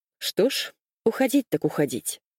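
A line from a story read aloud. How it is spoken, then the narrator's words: Loud. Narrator (Russian): произнес он громко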